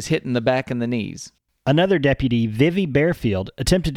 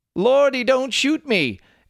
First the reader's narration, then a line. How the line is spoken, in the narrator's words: He screamed